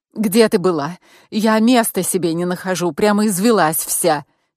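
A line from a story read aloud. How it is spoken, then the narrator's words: Angry scolding woman. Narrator (Russian): Сердито накинулась на меня моя подруга и подельница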